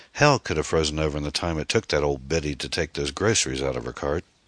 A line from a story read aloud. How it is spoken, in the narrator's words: Anne laughed and said